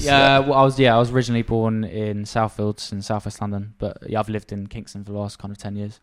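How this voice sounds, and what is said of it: South London accent. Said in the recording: “You've got almost like a South London accent, and not a Kingston accent.”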